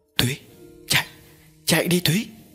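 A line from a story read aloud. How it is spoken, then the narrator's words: Weak urgent whisper. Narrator (Vietnamese): Cường bỗng tỉnh lại thì thào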